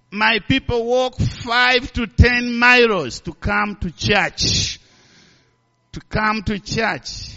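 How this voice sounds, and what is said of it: Strong accent, hard to understand. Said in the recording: “I know some of you have a problem of my accent. ... some they have a problem to understand my words”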